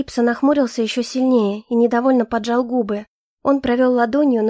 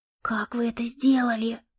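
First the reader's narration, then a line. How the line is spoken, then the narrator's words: Enraptured whisper. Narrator (Russian): прошептал Билкарт, восторженно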